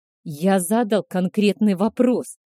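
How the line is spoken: Growling. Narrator (Russian): прорычал Альфа Канов

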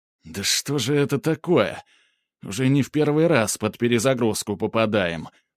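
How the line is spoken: Said through teeth. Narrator (Russian): процедил Снегири

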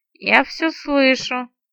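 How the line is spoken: Sleepy mumble. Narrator (Russian): сонно пробормотала наемница, не поднимая головы

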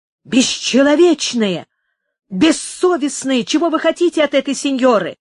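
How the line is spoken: Menacing commanding exclamation. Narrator (Russian): воскликнул он грозным, повелительным тоном

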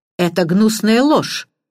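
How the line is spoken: Indignant exclamation. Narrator (Russian): воскликнул Эдмунд

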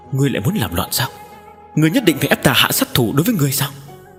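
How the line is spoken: Hoarse, strained anger. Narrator (Vietnamese): tiếng nói của hắn có phần khàn khàn

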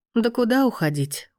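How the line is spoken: Tired question. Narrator (Russian): устало спросила мама

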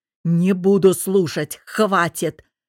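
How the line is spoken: Barked. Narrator (Russian): Рявкнул он

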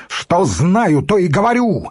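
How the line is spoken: Yell while jumping up. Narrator (Russian): вскакивая, заорал

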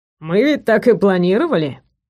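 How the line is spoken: Grumbling. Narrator (Russian): проворчал

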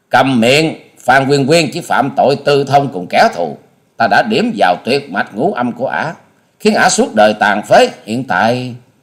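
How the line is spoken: Furious loud shout. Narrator (Vietnamese): Hà Xà tiên tử càng như lửa cháy thêm dầu, bà quát to

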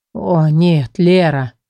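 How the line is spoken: Groaning. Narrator (Russian): простонал он

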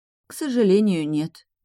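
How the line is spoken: Gloomy, young woman. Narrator (Russian): мрачно ответила девушка

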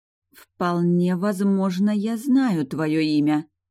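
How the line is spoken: Slow words through teeth. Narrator (Russian): медленно процедила я

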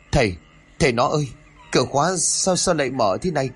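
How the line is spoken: Stammering woman. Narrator (Vietnamese): thị lắp bà lắp bắp

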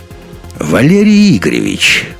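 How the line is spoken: Booming, superior, over phone. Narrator (Russian): прогудел в трубке голос, исполненный такого превосходства над собеседником

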